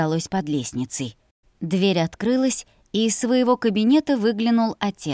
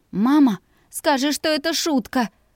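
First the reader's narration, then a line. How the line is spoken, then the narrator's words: Pleading. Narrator (Russian): взмолилась я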